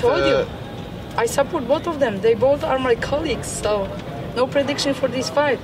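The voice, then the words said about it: Russian-accented English. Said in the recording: “as you can tell with the accents there, that was a, these were Russian media reporters here”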